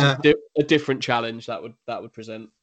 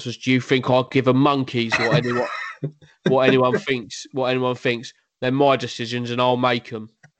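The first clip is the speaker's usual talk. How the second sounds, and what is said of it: Accurate impression of a football manager. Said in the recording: “that is a great impression of him. That's exactly how he sounds as well.”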